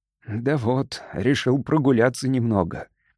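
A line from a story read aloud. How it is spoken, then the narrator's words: Mumbling. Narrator (Russian): промямлил Дэниелс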